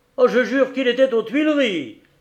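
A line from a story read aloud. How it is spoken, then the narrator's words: Exclaiming. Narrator (French): s'écria Dussardier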